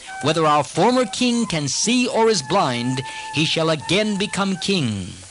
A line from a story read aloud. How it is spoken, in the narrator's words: all the citizens unanimously exclaimed